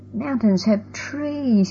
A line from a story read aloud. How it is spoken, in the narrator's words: he muttered